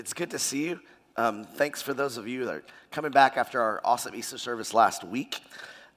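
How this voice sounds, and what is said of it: Slightly strained, fading voice. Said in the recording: “I'm losing my voice a little bit, so you're going to have to listen good”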